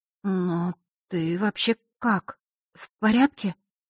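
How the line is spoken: Barely forced out. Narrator (Russian): едва выдавила из себя Василиса

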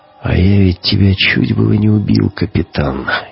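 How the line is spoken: Quiet speech. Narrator (Russian): негромко сказал Гумилев

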